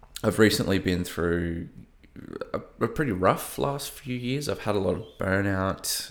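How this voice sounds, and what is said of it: Slight Australian accent. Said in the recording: “I live in Melbourne, in Australia, if you can't tell by my slightly broken accent”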